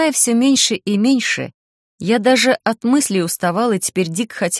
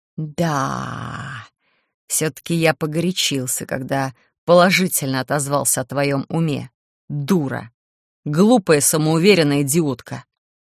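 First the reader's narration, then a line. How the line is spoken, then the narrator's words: Demon's angry hissing. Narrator (Russian): Демон сорвался на злобное шипение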